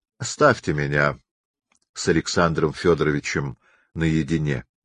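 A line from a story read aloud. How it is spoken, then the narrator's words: Calm. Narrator (Russian): спокойно сказал царь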